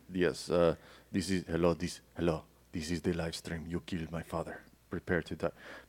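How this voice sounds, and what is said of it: Put-on Spanish accent, not very convincing. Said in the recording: “I was trying to sound Spanish there ... didn't really do a great Spanish accent”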